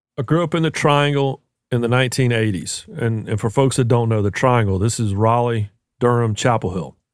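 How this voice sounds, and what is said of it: North Carolina accent. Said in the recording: “it's now clear to our audience, I think, from your accent that you're from North Carolina”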